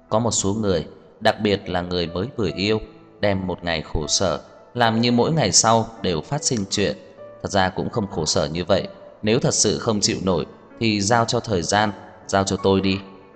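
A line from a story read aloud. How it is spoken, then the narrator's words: Calm, with a slight smile. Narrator (Vietnamese): Trang Hạo Nhiên bình tĩnh khẽ mỉm cười nói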